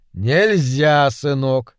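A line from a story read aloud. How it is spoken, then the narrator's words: Repeated with a sigh. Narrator (Russian): повторил отец и вздохнул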